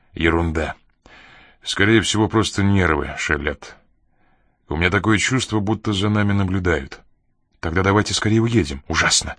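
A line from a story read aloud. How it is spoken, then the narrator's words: Faltering, soft cry. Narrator (Russian): Она запнулась, тихо вскрикнув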